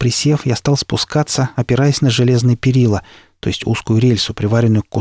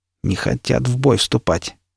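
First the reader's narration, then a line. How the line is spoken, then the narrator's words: Smug muttering. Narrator (Russian): с легким самодовольством пробормотал Никита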